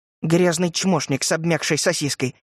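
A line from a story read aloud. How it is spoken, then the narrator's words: Grumbling, growing quieter. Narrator (Russian): Ворчала она, но голос ее звучал уже тише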